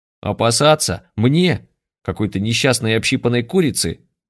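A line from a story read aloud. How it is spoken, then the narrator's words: Booming laughter. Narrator (Russian): Гулко расхохоталась Лика Манкуртова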